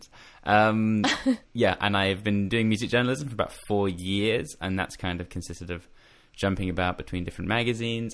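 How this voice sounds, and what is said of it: Australian accent with a twang. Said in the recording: “I'm from England, but I was born and raised in Australia. So that's why I have a twang. And I'm probably putting on more of an accent ... You're putting on an Australian accent. ... I'm letting the twang out a bit more”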